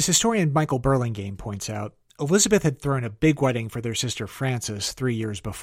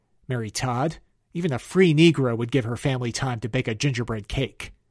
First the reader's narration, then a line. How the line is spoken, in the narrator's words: Elizabeth, peeved at her sister forcing her hand, spat out